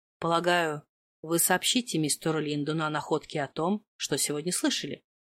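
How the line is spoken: Cautious, roundabout. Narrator (Russian): Начал Маркус издалека

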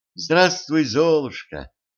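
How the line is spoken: Solemn. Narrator (Russian): торжественно сказала она

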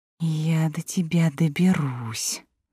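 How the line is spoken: Angry whisper. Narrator (Russian): злобно прошептала Илина

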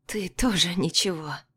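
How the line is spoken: Hoarse, blurted. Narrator (Russian): вырвалось у меня хриплое

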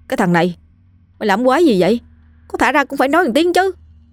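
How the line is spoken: Loud complaining yelp. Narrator (Vietnamese): Trần Lực la lên oai oái

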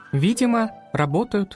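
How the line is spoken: Plain. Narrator (Russian): ответил Макс

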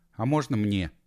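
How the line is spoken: Timid request. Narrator (Russian): Робко попросила Вильма

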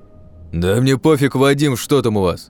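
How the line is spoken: Displeased tone. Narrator (Russian): Недовольным тоном высказывал

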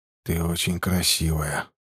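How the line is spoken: Whisper. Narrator (Russian): прошептал он

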